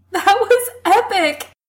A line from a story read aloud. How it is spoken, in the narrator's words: he gasps out